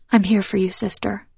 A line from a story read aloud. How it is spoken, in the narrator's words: she whispers